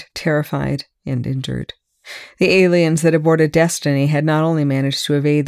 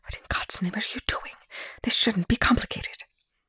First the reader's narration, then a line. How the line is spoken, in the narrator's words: Rush hissed